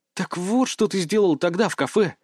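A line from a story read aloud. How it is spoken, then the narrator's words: Breathless exhale. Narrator (Russian): выдохнула Маша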